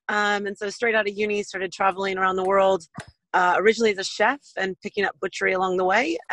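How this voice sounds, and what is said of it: American West Coast accent. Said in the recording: “my background is you can tell from my accent. I'm uh, American born, originally from west coast of the states”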